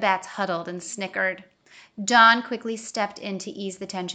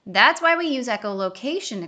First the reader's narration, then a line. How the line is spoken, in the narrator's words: exclaimed a third